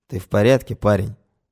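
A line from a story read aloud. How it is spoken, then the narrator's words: Quiet, somewhat calmer. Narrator (Russian): тихо говорит Сидоров, немного успокоившись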